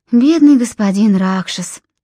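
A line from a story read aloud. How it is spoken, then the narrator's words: Sighing. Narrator (Russian): вздохнула Филиппа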